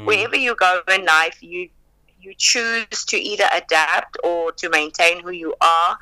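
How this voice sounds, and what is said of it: South African accent. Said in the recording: “I was very adamant about not losing my South African accent ... I chose to maintain and to keep my South African accent”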